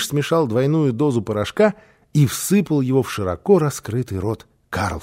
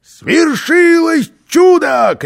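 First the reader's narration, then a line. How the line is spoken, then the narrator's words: Shout. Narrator (Russian): крикнул он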